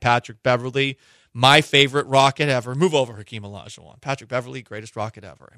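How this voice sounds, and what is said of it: Sarcastic delivery. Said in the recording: “Am I being sarcastic? I don't know. I'm kidding. I am being sarcastic.”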